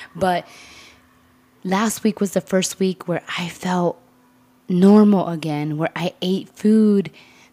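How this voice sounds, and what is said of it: Voice a bit sick from cold. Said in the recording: “you can kind of hear it in my voice right now, I'm fighting a little cold”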